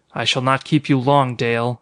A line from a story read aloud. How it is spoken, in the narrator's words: he said harshly